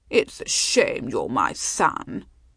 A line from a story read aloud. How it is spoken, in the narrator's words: she purred